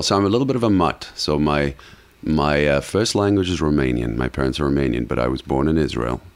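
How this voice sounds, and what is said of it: Non-native accented English. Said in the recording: “so you have an accent. You just mentioned you didn't grow up here.”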